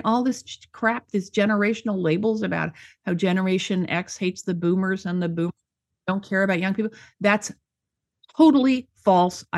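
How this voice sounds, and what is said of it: Angry, riled-up voice. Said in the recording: “You can hear from my voice. That whole discussion makes me very angry”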